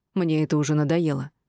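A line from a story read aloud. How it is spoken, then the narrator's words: Furious growl. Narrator (Russian): прорычал Ансар, который весь кипел от гнева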